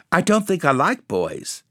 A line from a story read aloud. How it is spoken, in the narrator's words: answered the swallow